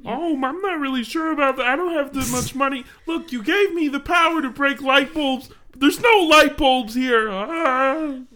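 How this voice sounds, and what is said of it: Kermit-like, confused imitated voice. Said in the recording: “It's just Kermit, but more confused. That's how I do that voice.”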